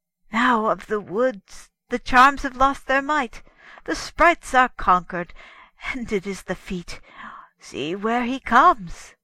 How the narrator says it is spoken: The hermit cried

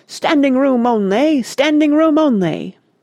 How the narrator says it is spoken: a doorman in gold braid was bellowing haughtily

